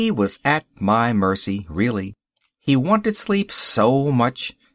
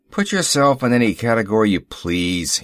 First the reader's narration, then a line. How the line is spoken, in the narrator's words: grumbled